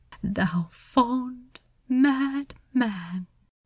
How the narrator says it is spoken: Xerophil whispered to himself

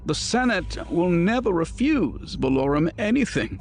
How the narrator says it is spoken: Farfalla snorted

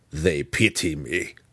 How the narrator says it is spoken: Belwar snarled

